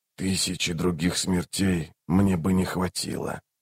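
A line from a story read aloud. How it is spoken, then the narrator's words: Very quiet whisper. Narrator (Russian): прошептал он так тихо, что услышали только Рейк и Барук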